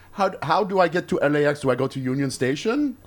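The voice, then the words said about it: Put-on generic Iranian accent. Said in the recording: “Is that your Iranian accent? ... my generic.”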